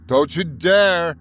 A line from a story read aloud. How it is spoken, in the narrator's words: I shouted at them